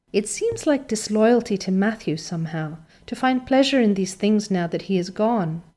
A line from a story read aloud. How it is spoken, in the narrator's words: she said wistfully